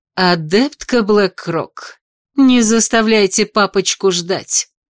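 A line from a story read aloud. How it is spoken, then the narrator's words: Snide, hurrying. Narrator (Russian): ехидно поторопила меня Эшери Кригер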